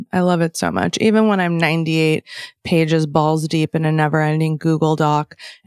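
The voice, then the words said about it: Creaky vocal fry voice. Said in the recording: “me and my vocal fry”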